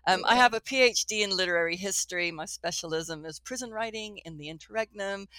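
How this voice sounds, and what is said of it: Odd mixed Texan and posh British accent. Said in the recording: “this sort of odd accent ... sometimes I'll be like, yow, yow, yow, and sometimes be like, ooh, ah, posh, posh, posh ... these different sounds in my voice”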